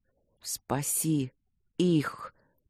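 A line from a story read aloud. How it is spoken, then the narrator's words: Strained whisper. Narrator (Russian): прошептал он с усилием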